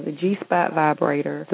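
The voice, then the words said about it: Southern country accent. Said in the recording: “You sound out of country when you said that ... the last extended part of the South, plus all my family is from the South, so I pick up on that type of... Accent.”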